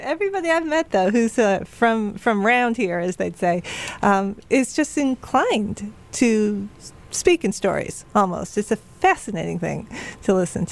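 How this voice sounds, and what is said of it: Softened northern US Yankee accent. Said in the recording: “I'm obviously from my accent, transplanted Yankee here... It's getting softer and softer every year.”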